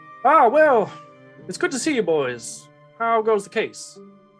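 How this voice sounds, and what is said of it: Cartoon rooster-style Southern drawl. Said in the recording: “you make fun of my accent ... I'm just Foghorn here ... Loghorn foghorn”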